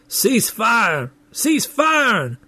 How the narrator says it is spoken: The sergeant looking bored, shouting

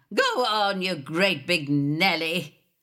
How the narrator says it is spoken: bellowing at the top of my voice

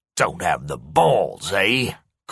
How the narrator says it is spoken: Corey sneered

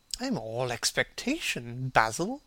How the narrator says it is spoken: murmured his companion

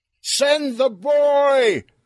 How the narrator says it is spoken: Earl yelled

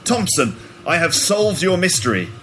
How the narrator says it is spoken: shouted Holmes confidently

